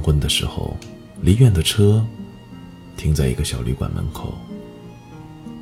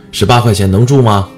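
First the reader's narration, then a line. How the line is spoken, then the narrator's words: Loud hoarse shouting. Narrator (Chinese): 咧着嗓子喊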